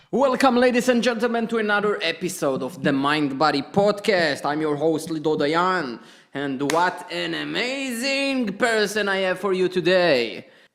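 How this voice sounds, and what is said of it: Jewish-accented English. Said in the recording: “with the sexy Jewish accent”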